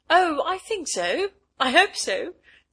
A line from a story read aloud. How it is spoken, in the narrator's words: said Bertha brightly